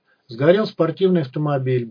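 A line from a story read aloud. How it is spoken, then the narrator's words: Brisk cynical announcer. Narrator (Russian): бодро проговорил диктор, следуя современной моде на цинизм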